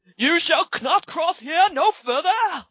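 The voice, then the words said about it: Bad put-on British accent. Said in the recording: “I'm sorry for our people across the pond... that was the worst accent you'll ever fucking hear”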